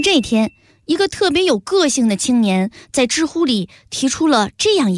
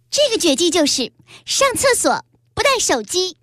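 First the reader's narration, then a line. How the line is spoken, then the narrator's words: Girl speaking loudly. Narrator (Chinese): 女孩 大声说道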